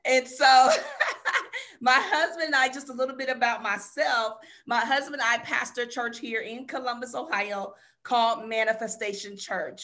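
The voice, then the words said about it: Southern drawl. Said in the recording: “I do have a Southern drawl because both of my parents are from the South”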